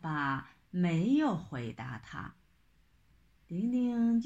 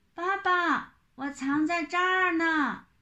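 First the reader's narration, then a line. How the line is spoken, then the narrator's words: Impatient child's loud call. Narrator (Chinese): 玲玲等急了，就高声喊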